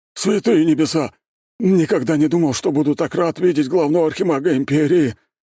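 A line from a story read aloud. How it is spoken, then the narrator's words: Relieved exhale. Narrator (Russian): выдохнул возница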